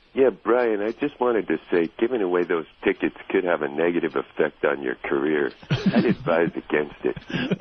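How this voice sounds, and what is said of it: Imitates another person's voice. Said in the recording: “Celebrity impersonation ... that's a pretty good Jim Cook”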